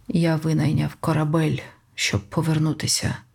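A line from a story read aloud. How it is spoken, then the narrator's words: Hoarse voice. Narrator (Ukrainian): хрипко промовив Джо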